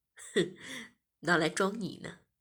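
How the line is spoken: Smiling. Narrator (Chinese): 我笑了笑，便说

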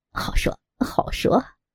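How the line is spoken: Beaming, elated. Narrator (Chinese): 尤巴眉开眼笑，飘飘然道

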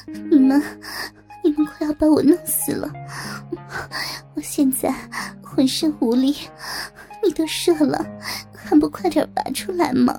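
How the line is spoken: Panting moan. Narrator (Chinese): 薇薇安喘息的呻吟道

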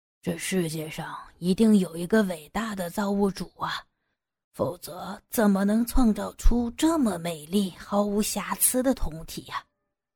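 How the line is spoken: Dizzy murmuring to himself. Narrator (Chinese): 杨野一阵眩晕，喃喃自语

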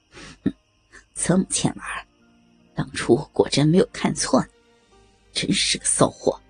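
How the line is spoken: Low husky voice. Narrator (Chinese): 公爵声音低哑的说了一句

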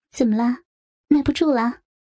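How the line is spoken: Smiling. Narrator (Chinese): 笑着说

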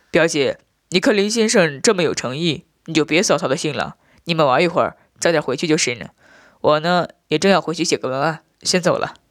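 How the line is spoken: Laughing. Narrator (Chinese): 笑着说道

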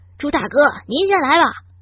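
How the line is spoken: Shout from below. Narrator (Chinese): 底下有人喊

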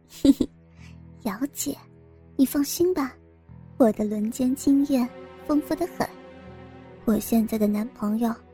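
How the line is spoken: Mysterious soft whisper. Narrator (Chinese): 心仪闻言神秘一笑，然后凑近陈瑶耳边轻声说道

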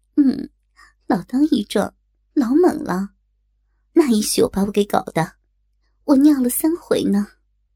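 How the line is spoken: Hushed snicker. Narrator (Chinese): 我噗呲一笑，压低了声音

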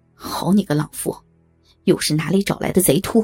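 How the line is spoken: Furious cursing. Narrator (Chinese): 不由得大怒骂道

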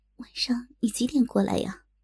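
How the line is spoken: Quiet question. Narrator (Chinese): 萍姐小声的问

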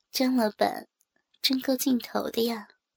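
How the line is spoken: Quiet, with a slight smile. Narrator (Chinese): 我微微一笑 … 小声的说

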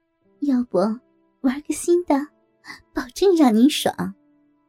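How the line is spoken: Flirtatious laughing whisper. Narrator (Chinese): 梅姐浪笑着，小声说

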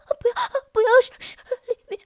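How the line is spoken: Sobbing moan. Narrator (Chinese): 王香平哭吟着

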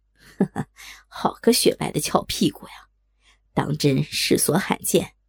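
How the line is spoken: Lewd laughter. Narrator (Chinese): 淫笑道

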